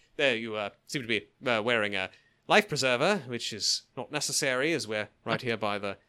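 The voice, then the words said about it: Hugh Grant impression, slightly Australian. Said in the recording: “Let me get my Hugh Grant together... I've kind of got a bit of a wee Australian accent, mate, going on.”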